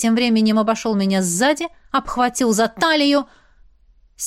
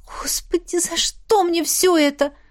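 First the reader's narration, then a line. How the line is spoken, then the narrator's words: Moaning. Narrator (Russian): простонала я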